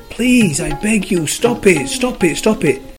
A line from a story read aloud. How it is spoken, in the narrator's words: the clay screamed